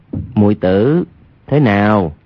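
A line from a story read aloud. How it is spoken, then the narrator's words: Lowered voice. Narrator (Vietnamese): Hoàng Nhan Khang hạ giọng nói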